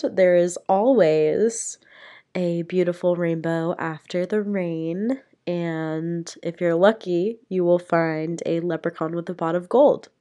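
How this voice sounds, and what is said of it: Raspy, sick-sounding voice. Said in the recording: “I'm kind of a little raspy. I got a little raspy voice because I'm sick ... Sorry for the sick voice”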